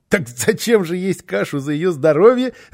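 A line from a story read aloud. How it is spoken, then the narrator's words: Child laughing. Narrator (Russian): рассмеялся малыш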